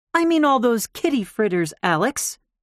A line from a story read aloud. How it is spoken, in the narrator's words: she snapped